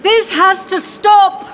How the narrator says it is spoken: he bellowed in character once again

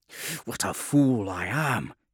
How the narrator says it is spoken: snarled

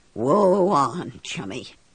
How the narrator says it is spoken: I says, and it came out in a kind of croak

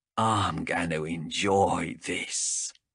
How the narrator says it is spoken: hissed

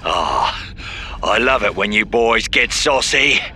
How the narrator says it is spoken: he wheezed

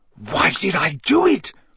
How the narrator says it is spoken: he said wildly

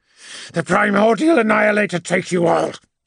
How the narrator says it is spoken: spat

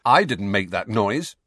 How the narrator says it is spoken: said Harry firmly

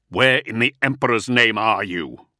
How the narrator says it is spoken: snarled the Primarch

